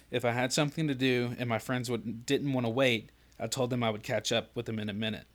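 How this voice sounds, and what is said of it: Out of breath while reading. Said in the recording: “I'm out of breath.”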